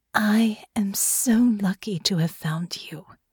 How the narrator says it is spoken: said, her voice soft, her tone reverent

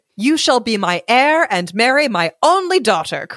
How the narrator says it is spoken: cried the king

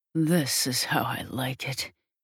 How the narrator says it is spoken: hisses through clenched teeth

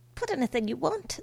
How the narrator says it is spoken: said Sophia impatiently

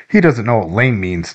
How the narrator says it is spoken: Dylan said, laughing

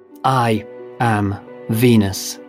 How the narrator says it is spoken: she said, her voice even

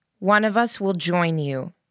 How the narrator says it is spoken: Mary said firmly

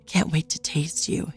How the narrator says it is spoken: he purred

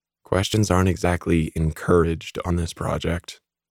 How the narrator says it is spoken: whispered

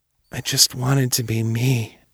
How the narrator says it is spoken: he whispered

